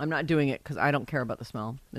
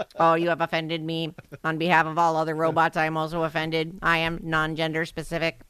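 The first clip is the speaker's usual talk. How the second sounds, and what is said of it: Robot voice. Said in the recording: “do the robot voice.”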